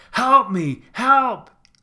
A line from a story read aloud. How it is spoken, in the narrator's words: screamed